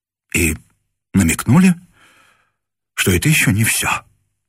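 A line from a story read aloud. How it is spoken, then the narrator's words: Breathed out. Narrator (Russian): выдохнул он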